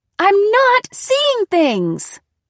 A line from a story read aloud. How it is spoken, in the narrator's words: I shrieked